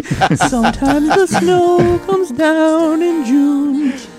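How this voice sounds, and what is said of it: Singing in falsetto. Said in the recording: “that was a beautiful falsetto.”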